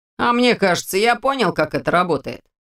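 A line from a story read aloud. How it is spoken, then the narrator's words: Snorting. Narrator (Russian): хмыкнул Ваня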